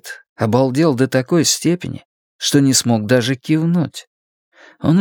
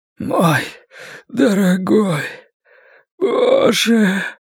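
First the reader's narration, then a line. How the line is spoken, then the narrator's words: Hoarse rasp. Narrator (Russian): прохрипел Ллойд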